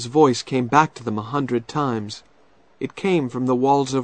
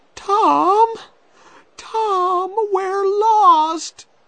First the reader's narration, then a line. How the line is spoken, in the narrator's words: cried Becky